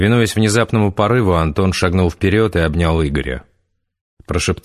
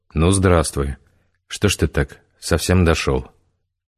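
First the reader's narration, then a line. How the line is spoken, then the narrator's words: Quiet. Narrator (Russian): Вячеслав негромко сказал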